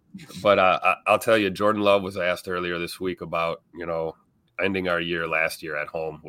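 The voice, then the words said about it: Sick, strained voice. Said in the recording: “Sick as a dog ... Lose my voice”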